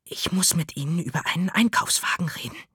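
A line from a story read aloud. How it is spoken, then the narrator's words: Whisper. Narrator (German): flüsterte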